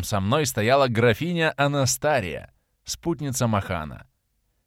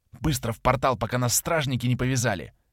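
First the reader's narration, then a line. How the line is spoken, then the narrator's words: Whisper. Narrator (Russian): прошептала Анастария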